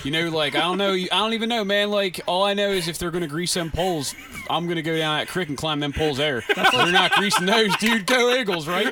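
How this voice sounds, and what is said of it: Northeast Philadelphia accent impression. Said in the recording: “the best Northeast Philly impression I have ever heard”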